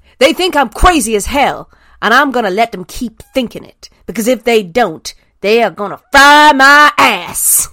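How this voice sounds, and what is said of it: Generic put-on Southern American accent. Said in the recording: “in your best crazy Southern American lady accent ... I'm so sorry if I just do a generic Southern accent ... I'm going to get a Southern accent”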